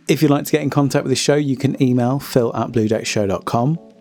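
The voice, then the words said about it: Strained, struggling voice. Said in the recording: “my voice is kind of struggling a little bit”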